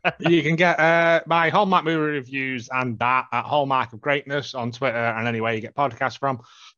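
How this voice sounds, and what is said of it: Robot voice. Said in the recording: “I'm going to do robot voice now.”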